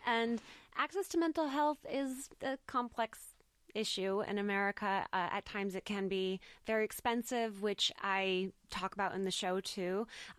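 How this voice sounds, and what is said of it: American accent. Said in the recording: “I'm American. I don't know if you can tell from my accent.”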